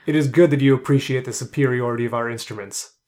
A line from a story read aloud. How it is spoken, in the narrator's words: Thagobar said grimly